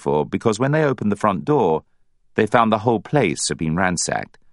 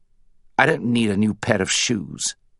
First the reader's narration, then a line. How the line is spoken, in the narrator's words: Hugo snapped